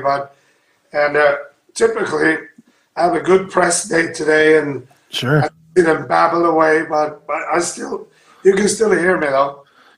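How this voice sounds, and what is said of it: Hoarse voice from a cold. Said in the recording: “a small cold here. My voice is kind of giving in on me”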